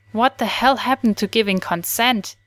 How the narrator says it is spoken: Dean snapped angrily

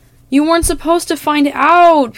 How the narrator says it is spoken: Peter wails

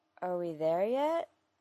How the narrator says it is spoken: he asked drowsily

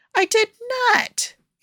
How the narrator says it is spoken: Aaron yelped

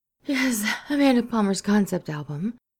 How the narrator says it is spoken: Kath says over a wheeze

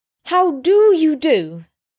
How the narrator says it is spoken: She said loudly

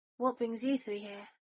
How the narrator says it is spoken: Neville asked, the cheeriness in his voice falling flat

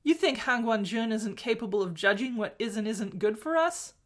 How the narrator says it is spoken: Mo Xuanyu laughed again, more gently

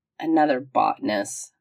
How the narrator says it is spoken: McKay grumbled

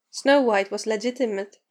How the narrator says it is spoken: pointed out with a chuckle

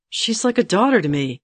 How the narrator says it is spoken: Geralt snapped at her

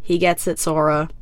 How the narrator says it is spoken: Lloyd sighs

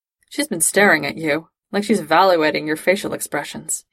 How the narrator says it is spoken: he muttered

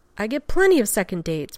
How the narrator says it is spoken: McKay said, a little too loudly

